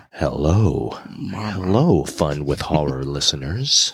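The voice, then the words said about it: Voice deeper than usual. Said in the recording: “my voice is a little bit deeper”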